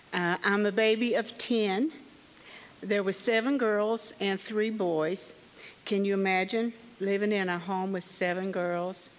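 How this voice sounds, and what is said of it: Kentucky Southern American accent. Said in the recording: “I was born in Kentucky, as you can tell by my accent.”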